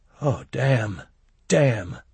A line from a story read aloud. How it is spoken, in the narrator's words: he muttered